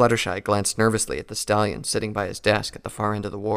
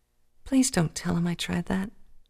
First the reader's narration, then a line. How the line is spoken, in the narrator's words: she whispered